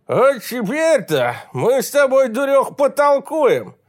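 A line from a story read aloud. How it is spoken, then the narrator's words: Drunken promise. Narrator (Russian): Пьяным голосом пообещал он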